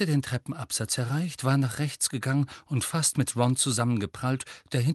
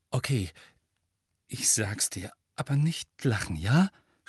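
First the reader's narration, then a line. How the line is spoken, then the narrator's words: Embarrassed defensive stammering. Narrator (German): stammelt abwehrend und lief mit jeder Sekunde röter an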